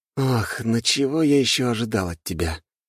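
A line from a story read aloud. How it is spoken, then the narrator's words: Heavy sigh. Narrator (Russian): тяжело вздохнул я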